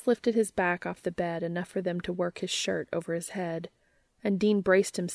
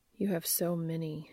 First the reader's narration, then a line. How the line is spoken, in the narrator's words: he murmured